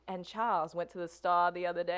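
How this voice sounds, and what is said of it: Put-on Georgia Southern drawl. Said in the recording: “My grandmother has the accent that's dying out in the South, the Georgia Southern ... draw, where she'll say”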